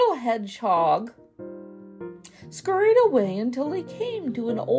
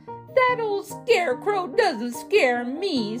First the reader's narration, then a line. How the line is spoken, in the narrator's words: said, cackling with laughter